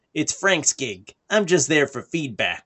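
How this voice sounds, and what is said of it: Imitates another person's voice. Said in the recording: “In that exact tone of voice? ... That's my Todd McFarlane impression.”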